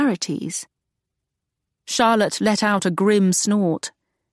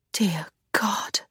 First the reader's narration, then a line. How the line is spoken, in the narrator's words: Agatha whispered